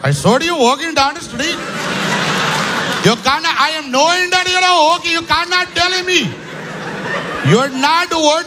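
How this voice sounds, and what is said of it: Mock Indian accent. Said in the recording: “That same song with an Indian accent.”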